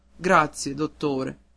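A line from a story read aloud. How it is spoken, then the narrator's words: Sobbing boy. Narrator (Italian): Il ragazzo singhiozzando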